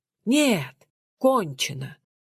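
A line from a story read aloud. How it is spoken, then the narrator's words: Exclamation. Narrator (Russian): воскликнул он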